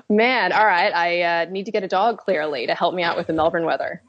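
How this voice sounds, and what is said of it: American Midwest accent. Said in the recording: “there's an interesting internationalism going on in your upbringing ... Where does your accent come from? ... originally I'm from Ohio, which is in the Midwest of the USA ... just can't drop it”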